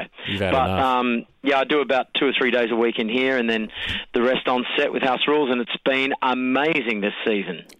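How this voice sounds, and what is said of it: Slightly hoarse voice. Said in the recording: “if I'm sounding a little hoarse,”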